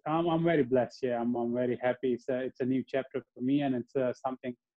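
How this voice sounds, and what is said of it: Australian accent. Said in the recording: “you formed a very good Australian accent. That is a sounding. You're sounding like a proper Aussie there”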